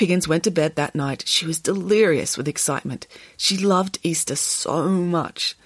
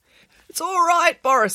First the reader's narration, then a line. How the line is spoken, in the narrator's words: squeaked Derek